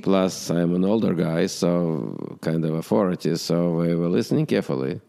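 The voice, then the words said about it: Strong accent, hard to understand. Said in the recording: “my popularity is because of my accent. They couldn't understand me right away ... we liked your accent.”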